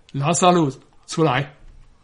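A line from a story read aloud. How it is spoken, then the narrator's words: Loud cry. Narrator (Chinese): 大声呼叫说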